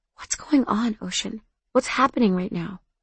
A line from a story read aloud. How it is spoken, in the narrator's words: I whispered